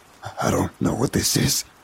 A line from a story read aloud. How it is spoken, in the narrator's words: Mason gasped